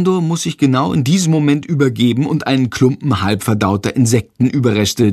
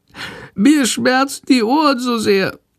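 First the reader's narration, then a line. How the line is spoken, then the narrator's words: Meek sickly whimper. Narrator (German): jammert die kranke Fledermaus ganz kleinlaut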